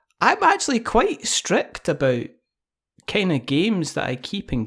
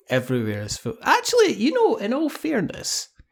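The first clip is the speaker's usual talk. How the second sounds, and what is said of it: Squeaky high-pitched voice. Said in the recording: “I don't know why I'm saying this in a squeaky voice ... everything's better with a squeaky voice”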